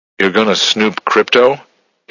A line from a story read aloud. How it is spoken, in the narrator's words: he asked nervously